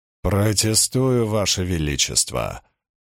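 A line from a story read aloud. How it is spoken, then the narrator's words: Growled. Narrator (Russian): прорычал Григорин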